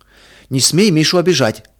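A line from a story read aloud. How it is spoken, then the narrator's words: Protective shout, boy. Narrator (Russian): крикнул Петя, готовый встать на защиту брата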